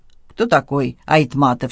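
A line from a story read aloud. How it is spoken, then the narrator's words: Angry question. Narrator (Russian): сердито спросил Бродский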